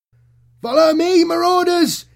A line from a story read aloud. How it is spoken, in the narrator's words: yelled